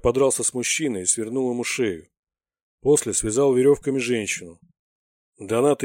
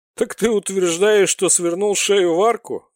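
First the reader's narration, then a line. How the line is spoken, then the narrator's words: Sudden loud laughter. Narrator (Russian): неожиданно расхохотался Бритоголовый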